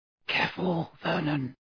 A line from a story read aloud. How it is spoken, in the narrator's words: breathed Aunt Petunia